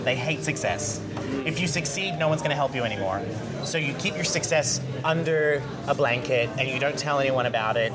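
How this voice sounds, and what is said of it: Americanized accent, originally Australian. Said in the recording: “I have a very Americanized accent now because nobody could understand me when I first moved here, I'm Australian.”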